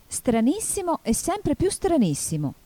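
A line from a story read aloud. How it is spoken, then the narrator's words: Exclaiming. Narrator (Italian): esclamò Alice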